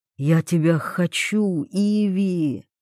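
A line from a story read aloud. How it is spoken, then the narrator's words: Whisper. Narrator (Russian): вновь шепнул Вольных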